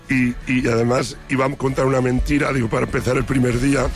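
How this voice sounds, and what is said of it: Hoarse, nearly voiceless speech. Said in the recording (Spanish): “estoy afónico ... estuve cantando como un perro las canciones”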